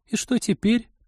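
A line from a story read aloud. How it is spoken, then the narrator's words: Squeak. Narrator (Russian): пискнула Полина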